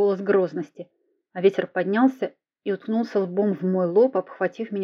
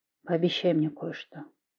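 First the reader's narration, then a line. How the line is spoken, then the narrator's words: Quiet. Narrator (Russian): тихо проговорил он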